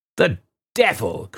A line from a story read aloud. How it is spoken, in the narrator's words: cried her father impatiently